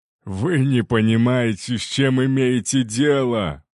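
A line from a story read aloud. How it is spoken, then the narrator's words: Growl. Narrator (Russian): прорычал Артур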